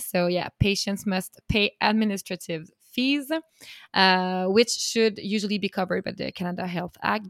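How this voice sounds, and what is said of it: French accent in English. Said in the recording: “Sorry for my French accent here.”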